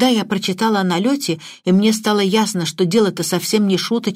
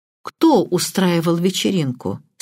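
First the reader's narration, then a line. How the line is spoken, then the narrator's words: Plain. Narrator (Russian): спросил Крадок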